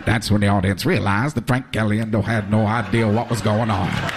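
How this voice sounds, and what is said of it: Morgan Freeman impression, narrator voice. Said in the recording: “do a Morgan Freeman impersonation narrating his life”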